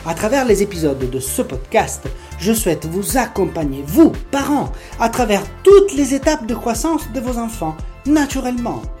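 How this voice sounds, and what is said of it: Strong Italian accent. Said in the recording (French): “un accent italien bien marqué”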